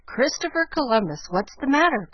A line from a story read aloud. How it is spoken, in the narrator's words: cried Jo